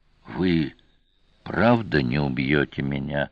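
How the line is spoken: Prisoner whispering. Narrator (Russian): прошептал пленник

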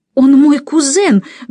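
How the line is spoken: Furious exclamation. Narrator (Russian): гневно-пригневно воскликнул он

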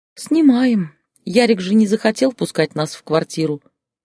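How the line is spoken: Sighing older woman. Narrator (Russian): вздохнула бывшая теща

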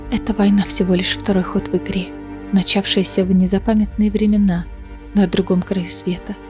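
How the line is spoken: Quiet. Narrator (Russian): тихо сказала Элиана

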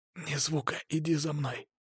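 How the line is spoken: Whisper. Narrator (Russian): шепнув Ольге

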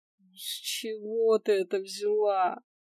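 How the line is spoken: Resigned drawl. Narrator (Russian): обреченно закатывая глаза в потолок, протянула я

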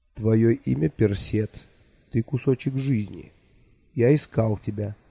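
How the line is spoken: Quiet. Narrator (Russian): тихо сказал мне Махлилгул Аннох

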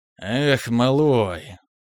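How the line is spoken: Human sigh. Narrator (Russian): совершенно по-человечески вздохнул контролер

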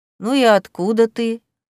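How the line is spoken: Lazy question. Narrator (Russian): лениво спросил кот

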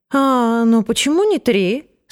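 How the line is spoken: Disappointed question. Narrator (Russian): спросила она разочарованным тоном

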